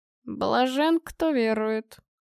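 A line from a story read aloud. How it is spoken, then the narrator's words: Muttered aside. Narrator (Russian): пробормотал Павел в сторону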